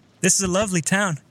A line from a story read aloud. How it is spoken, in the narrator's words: said, almost in a shout, not wanting to lose her